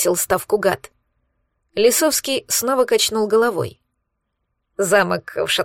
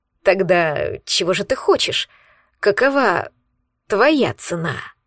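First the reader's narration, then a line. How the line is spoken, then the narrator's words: Tired, inwardly shaken. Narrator (Russian): Устало проговорил Рогов, но внутренне его, кажется, хорошенько потряхивало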